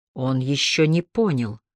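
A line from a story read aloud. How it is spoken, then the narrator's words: Quiet remark. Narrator (Russian): тихо заметил Харри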